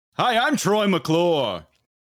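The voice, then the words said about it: Announcer-style cartoon character voice. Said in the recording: “his voice is just so amazing that he can be the announcer or whatever for anything ... I do a Troy McClure impression.”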